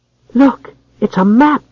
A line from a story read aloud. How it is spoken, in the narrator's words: cried the child, much excited